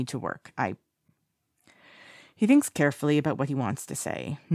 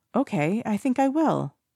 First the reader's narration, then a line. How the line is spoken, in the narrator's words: Si Chen says brightly